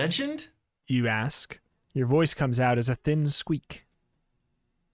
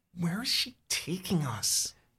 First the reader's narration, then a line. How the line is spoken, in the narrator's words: You whisper